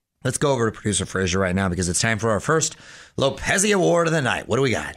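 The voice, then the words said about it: Out of breath, struggling voice. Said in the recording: “out of breath host ... Why are you out of breath? ... You seem to be struggling.”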